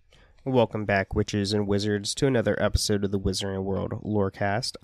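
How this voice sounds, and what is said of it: Raspy voice from a cold. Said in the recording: “you might hear me sound a little raspy, a little weird... I'm just like trying to get over a cold, and it messes up my voice and lungs”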